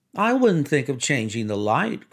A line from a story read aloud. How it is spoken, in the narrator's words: cried Mrs